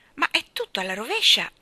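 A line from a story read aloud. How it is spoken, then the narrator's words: Exclaimed. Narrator (Italian): esclamò Jane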